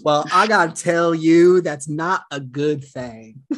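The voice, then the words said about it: Imitates another person's voice. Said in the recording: “That was my best impression I could do of Dr.”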